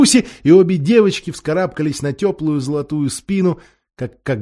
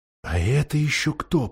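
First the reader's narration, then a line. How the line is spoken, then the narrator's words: Whispered. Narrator (Russian): прошептала Сьюзен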